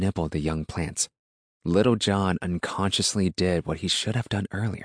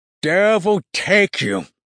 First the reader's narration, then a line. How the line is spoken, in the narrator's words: the man roared